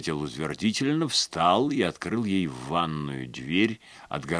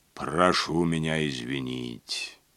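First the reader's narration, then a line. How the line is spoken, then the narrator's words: Low, even female voice. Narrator (Russian): проговорила она своим низким ровным голосом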